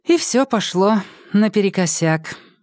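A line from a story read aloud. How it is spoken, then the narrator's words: Sighing. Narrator (Russian): вздохнула Ксения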